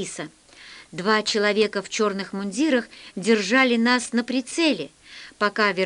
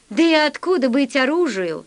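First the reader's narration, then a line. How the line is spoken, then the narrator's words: Laughing fat man. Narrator (Russian): засмеялся толстяк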